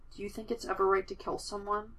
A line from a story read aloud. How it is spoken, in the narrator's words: in a small voice